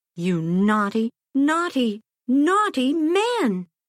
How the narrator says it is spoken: cried

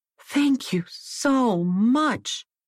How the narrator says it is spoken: exclaimed Jane

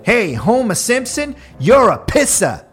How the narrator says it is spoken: a passing driver yelled out the window

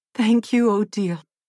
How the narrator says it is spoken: gasped Odette through tears that now flowed freely in gratitude

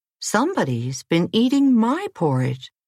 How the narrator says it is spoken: she exclaimed

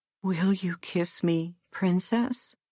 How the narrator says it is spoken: said feebly

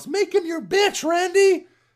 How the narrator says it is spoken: Early on, one fan yells

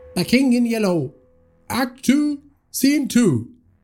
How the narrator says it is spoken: shouted from the side of the stage

